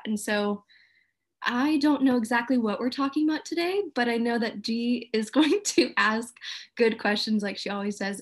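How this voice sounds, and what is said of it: Australian accent. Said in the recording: “a good Australian accent”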